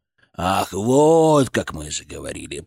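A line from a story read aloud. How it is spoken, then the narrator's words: Creaky voice. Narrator (Russian): проскрипел он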